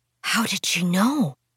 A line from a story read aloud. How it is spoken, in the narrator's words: Ming whispered